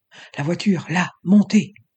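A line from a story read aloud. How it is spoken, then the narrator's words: Breathy whisper. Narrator (French): souffla-t-il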